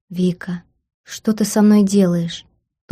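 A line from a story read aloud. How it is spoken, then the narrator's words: Languid whisper in ear. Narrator (Russian): томно прошептал он на ухо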